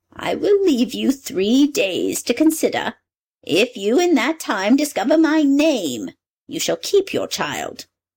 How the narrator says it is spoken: the dwarf pitied her, and said

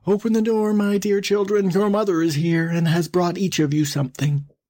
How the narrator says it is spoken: he cried

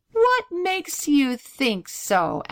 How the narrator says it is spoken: asked Donald with a laugh

